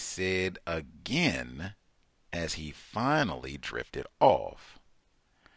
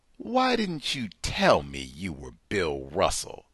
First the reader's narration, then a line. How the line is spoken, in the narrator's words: demanded angrily